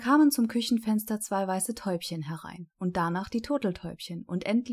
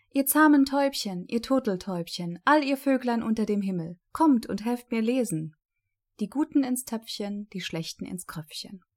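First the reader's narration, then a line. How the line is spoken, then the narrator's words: Girl calling out. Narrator (German): das Mädchen … rief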